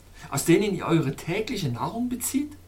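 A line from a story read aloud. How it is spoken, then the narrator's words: Calling out. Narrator (German): rief ich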